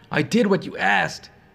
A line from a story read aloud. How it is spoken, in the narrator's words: she pleaded, barely able to breathe